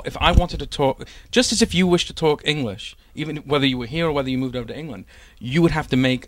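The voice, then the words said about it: English Manchester accent. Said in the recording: “We moved from Manchester in England to Florida. ... The accent sticks. ... The accent stuck. Yeah.”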